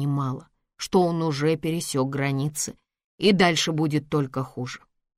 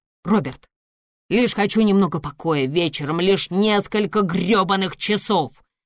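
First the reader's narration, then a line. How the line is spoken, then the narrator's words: Shouting. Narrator (Russian): кричал он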